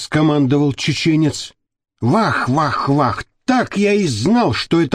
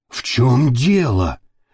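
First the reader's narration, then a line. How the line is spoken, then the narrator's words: Nervous frightened question. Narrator (Russian): нервно спросил серый кардинал, испуганно вжимаясь в землю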